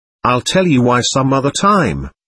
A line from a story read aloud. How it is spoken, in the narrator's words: Weena said